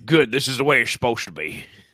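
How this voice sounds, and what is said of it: Poor country-accented impression of another person. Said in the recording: “Sound like country Tony, country Tony LaRussa. ... my Tony LaRussa impression. It's not a good one.”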